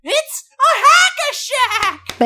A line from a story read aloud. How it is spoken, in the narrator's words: Van Gundy screams